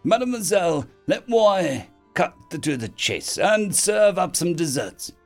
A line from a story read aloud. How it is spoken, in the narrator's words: he said in a horrible accent